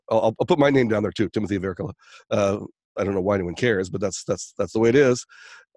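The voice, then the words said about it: Sick, funny-sounding voice. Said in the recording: “I'm actually sick, so that's one of the reasons my voice is kind of funny”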